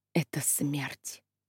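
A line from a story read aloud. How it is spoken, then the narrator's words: Muttering. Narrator (Russian): она бормотала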